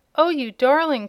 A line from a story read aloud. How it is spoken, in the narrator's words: cried Trot